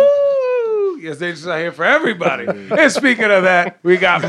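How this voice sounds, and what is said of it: Usual voice. Nothing is said of it.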